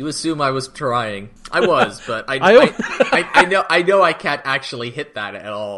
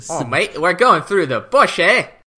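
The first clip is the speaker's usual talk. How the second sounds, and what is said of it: Bad put-on Australian accent. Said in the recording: “That bad, huh? ... The bad Scottish accent was on purpose. This was not.”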